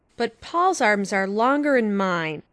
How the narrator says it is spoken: grumbled Davy

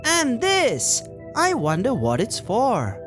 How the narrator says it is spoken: Coral exclaimed

